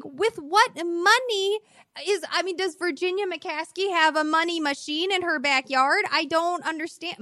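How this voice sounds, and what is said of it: Strong regional accent coming out. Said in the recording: “My accent really came out. ... That it just took right over. ... when you said backyard, whoa, that was aggressive.”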